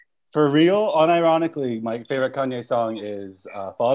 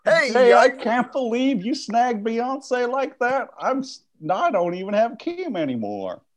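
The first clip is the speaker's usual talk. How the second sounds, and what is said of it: Impression with southern accent. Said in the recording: “You got kind of a southern accent there.”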